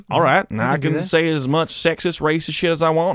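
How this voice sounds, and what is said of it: Put-on redneck white accent. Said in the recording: “If I say something offensive in an accent. ... Only if you're doing a white accent. ... you're making fun of rednecks, dude.”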